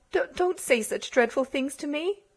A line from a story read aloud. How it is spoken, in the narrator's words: she stammered